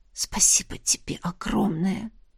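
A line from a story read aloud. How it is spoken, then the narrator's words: Whisper. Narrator (Russian): прошептала ему на ухо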